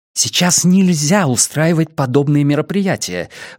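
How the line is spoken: Exclaiming. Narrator (Russian): воскликнула она

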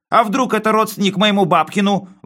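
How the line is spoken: Wailing loudly. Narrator (Russian): вопил он

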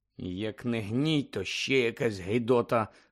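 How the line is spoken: Muttered under breath. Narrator (Ukrainian): пробурмотів собі підніс Шеймус Фініган

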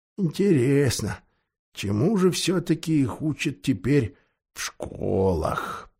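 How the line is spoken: Muttering to himself. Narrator (Russian): пробормотал он про себя

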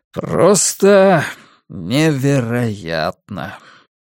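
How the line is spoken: Tired. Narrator (Russian): устало сказал режиссер

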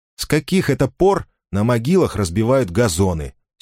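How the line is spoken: Angry reply. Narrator (Russian): сердито ответила она

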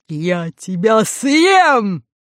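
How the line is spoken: Lion's roar. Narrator (Russian): лев разинул пасть, ощетинил гриву и, прыгнув на волшебницу, проревел

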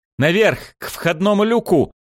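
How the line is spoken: Desperate yell. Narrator (Russian): отчаянно завопил я

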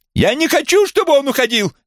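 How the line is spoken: Shrieking. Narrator (Russian): визжала она

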